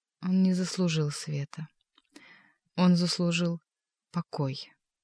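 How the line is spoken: Sad voice. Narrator (Russian): печальным голосом проговорил Левий

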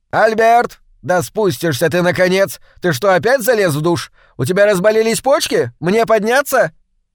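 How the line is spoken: Shouting upstairs. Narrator (Russian): закричала в воздух

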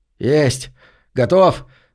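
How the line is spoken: Triumphant bark. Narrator (Russian): торжествующе гаркнул Деннис

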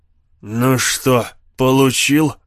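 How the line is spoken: Hoarse sarcastic jab. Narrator (Russian): хрипло съязвил мясник

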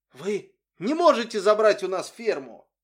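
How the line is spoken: Shrill child's shout. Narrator (Russian): пронзительно закричал маленький Уилли

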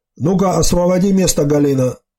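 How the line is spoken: Plain. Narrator (Russian): сказал он

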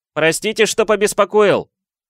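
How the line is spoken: Nearly shouting. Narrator (Russian): Почти прокричал он

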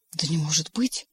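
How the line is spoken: Astonished whisper, small one. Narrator (Russian): поражаясь, шептал маленький

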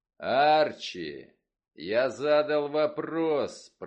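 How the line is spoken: Roared. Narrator (Russian): проревел он

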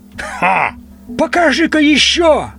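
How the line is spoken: Old man shouting. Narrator (Russian): крикнул дедуля Медноу

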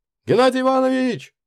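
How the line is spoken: Shouted. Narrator (Russian): закричал я

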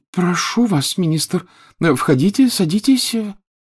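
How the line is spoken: Flustered babbling. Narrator (Russian): залепетала миссис Уизли

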